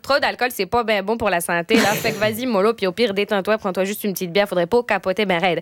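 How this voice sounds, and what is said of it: Put-on Québécois French accent. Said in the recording (French): “avec l'accent québécois, tout est mieux”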